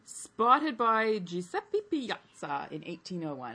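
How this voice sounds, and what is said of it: Italian accent on a name. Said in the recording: “I can't do an Italian accent. ... He just did. It was magnificent.”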